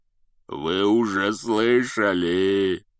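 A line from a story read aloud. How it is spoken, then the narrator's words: Growling. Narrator (Russian): прорычал Хагрид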